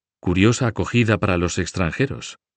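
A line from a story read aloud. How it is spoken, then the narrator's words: Plain. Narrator (Spanish): dijo Gucho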